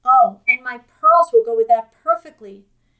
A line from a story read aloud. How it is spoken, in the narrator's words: Jean had exclaimed